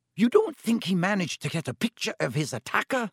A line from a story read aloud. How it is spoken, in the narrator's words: said Professor McGonagall eagerly